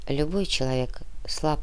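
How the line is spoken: Quiet monk's voice. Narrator (Russian): тихо проговорил монах

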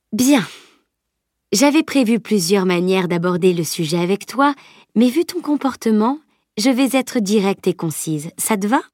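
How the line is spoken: Unflustered, steady. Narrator (French): continuait sans se démonter

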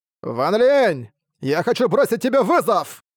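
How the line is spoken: Sudden shout. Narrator (Russian): Внезапно закричал он

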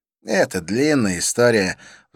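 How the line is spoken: Sighing. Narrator (Russian): вздохнул он

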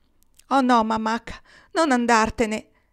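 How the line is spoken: Exclaimed. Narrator (Italian): esclamò Nils

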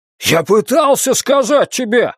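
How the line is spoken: Shouting out. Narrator (Russian): выкрикнул он

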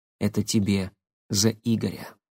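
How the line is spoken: Quiet. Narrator (Russian): тихо сказал Никита

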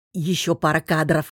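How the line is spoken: Hinting request with a chuckle. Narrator (Russian): попросил Алекс и, хмыкнув, намекнул

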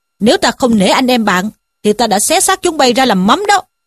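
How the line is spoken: Angry shout. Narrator (Vietnamese): Trí Thâm quát bảo

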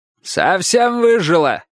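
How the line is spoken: Shouted reply, old man. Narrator (Russian): крикнул дедушка в ответ

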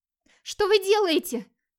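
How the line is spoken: Frightened cry, young woman. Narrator (Russian): Испуганно вскрикнула девушка, не веря, что с ней может случиться что-то настолько страшное

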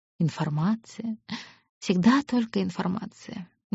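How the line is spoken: Bitter whisper. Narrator (Russian): горько прошептала

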